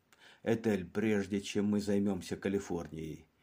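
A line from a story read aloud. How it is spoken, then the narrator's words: Muttering. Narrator (Russian): буркнул Кирк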